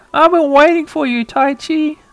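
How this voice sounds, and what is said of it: Cutesy character voice. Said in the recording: “doing a cutesy voice ... I like its cute voice. It has a way cuter voice than in the anime.”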